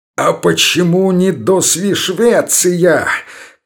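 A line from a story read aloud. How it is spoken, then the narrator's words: Wild crazed shout. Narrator (Russian): крикнул он диким голосом сумасшедшего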